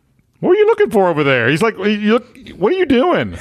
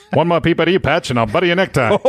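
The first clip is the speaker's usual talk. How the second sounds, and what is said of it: Old-timey New York gangster accent. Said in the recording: “old-timey New York gangster accent”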